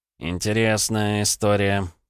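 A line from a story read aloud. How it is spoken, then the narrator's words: Drawled. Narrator (Russian): протянул Лёнька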